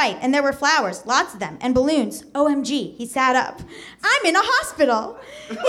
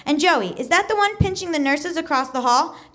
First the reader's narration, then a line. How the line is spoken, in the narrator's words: Justin laughed